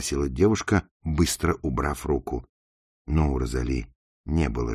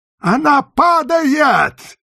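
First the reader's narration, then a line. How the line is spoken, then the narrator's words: Shout. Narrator (Russian): крикнул он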